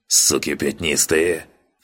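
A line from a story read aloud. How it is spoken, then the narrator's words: Hateful rasp. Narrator (Russian): с ненавистью прохрипел генерал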